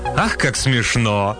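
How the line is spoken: Cynical shameless laughter. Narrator (Russian): маленькая ящерица, несколько склонная к цинизму, беззастенчиво расхохоталась

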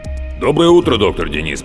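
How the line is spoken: Deep bass voice. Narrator (Russian): пробасил голос рядом

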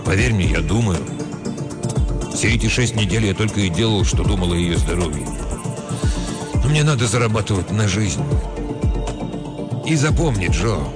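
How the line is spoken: Soft voice. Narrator (Russian): добавил таким же мягким голосом

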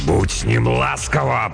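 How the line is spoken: Growled. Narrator (Russian): прорычал монгол

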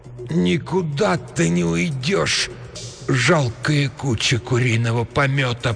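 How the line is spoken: Moaning. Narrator (Russian): простонала она

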